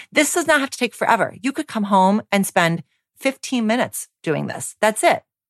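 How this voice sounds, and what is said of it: Energetic, fired-up delivery. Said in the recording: “as you can tell by my voice, I'm pretty fired up and passionate”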